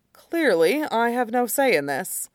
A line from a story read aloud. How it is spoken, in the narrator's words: says dryly